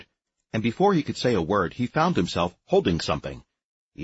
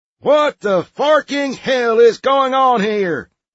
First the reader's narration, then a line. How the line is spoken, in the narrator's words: roared Sergeant Pitbull